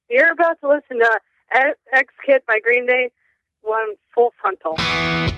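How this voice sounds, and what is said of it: Announcer-style radio voice. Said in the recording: “With your best radio voice”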